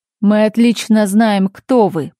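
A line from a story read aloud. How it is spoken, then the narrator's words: Booming megaphone voice. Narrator (Russian): прогремел голос из мегафона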